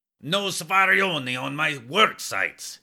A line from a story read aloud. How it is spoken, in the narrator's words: would scream